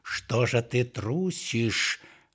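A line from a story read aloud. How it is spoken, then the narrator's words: Angry growl. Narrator (Russian): рычал злой голос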